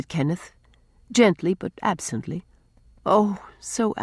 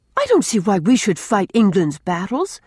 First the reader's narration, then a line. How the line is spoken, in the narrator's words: cried Rilla